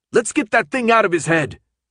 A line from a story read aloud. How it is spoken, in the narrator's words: Minho yelled at Hans